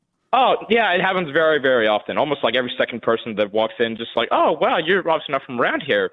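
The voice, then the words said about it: American-sounding accent. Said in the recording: “Where's your accent from? ... I guess I just always got the accent from the American. Hold on, you're not American.”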